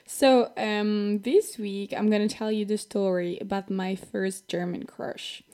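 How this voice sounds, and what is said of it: French accent, slightly sick voice. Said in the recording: “Sorry for my voice, I'm a bit sick ... If I have a French accent, that's totally normal because I'm from France”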